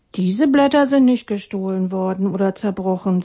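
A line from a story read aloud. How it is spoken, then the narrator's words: Plain. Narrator (German): sagte er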